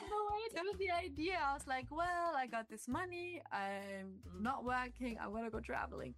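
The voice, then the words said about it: German accent. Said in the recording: “in case the accent didn't give it away, she's from Germany”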